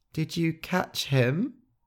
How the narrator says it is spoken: Gentle said, his voice shaking

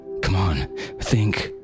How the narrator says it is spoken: he panted

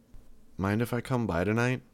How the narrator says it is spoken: asked, my voice low

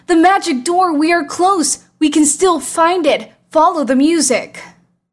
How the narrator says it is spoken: The two looked at each other in amazement and shouted

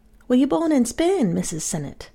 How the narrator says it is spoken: I asked

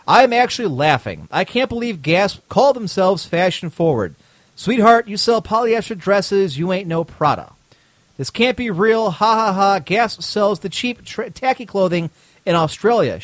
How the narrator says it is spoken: she said

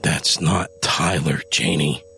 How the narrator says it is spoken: Adam growled

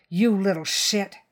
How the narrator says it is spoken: Phil snarled, his congenial mask now long gone

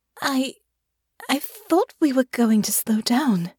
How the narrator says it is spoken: she said, her voice shaky

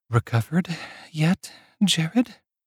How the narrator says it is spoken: asks in a breathy tone

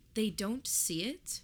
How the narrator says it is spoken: Mary asked

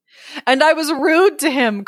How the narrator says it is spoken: cries the servant

